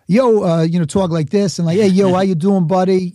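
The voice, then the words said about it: Put-on Bronx accent. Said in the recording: “I grew up in the Bronx, but I'm not going to pretend I have an accent”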